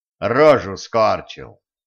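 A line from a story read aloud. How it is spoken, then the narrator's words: Casual offhand explanation. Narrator (Russian): мимоходом пояснил Кощей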